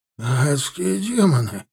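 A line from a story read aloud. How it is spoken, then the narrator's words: Hoarse exclamation. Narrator (Russian): воскликнул хрипло Гритбенк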